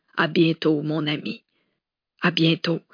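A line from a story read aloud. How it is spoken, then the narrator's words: Old woman, moved voice. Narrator (French): répondit la vieille dame d'une voix émue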